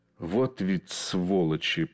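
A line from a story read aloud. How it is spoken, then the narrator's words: Hissed. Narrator (Russian): прошипел он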